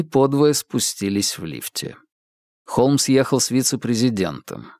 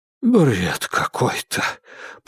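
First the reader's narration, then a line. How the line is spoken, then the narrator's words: Muttering. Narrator (Russian): пробормотал мистер Дизмонд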